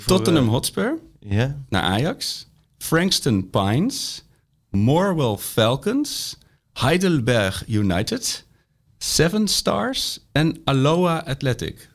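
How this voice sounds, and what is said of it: Imitated local accent per country. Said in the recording (Dutch): “praat gelijk maar met een mooi accent per, ... per land, hè?”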